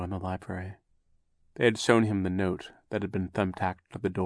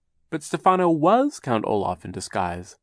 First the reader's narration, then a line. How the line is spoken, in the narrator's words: Klaus exclaimed